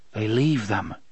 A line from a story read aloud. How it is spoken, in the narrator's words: Cuthbert muttered